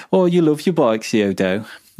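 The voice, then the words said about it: Put-on Black Country accent. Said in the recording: “That was an all right Black Country accent, that was.”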